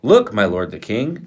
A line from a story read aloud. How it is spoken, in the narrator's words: Gehazi exclaimed